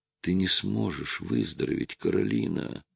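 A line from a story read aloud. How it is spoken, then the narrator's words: Hoarse voice over phone. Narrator (Russian): прохрипел голос с другого конца провода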